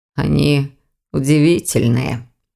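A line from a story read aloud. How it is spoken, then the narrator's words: Young man muttering. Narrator (Russian): пробормотал молодой человек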